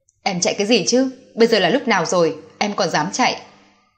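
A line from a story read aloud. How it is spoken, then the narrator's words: Angry worried shout. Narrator (Vietnamese): Lâm Vũ Chết vừa bực vừa lo ... tức giận quát lên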